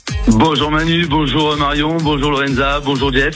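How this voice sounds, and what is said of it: Regional accent with a singing lilt. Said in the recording (French): “petit accent ... Ça chante.”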